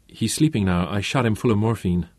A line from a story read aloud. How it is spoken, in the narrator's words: the fat little doctor muttered